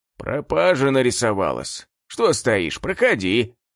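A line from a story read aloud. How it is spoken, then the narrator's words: Grumbling. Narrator (Russian): Пробурчал он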